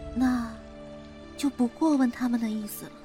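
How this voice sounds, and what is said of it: Quiet, soft-spoken line. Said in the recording (Chinese): “小声地说”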